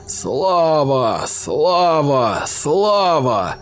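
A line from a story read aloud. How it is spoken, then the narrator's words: Monster's two mouths howling together. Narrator (Russian): обе пасти монстра взвыли хором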